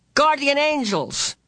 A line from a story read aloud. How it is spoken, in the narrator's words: he shouted again, his face tense with concentration